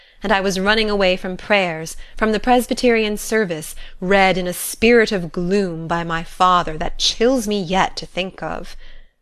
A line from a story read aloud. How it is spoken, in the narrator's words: she laughed